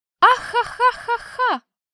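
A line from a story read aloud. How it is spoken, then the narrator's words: Shrill elf laughter. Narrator (Russian): Истошно расхохоталась эльфийка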